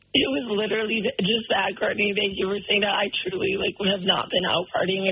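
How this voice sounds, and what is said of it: Hoarse, nearly lost voice. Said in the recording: “I lost my voice ... your voice sounds that way”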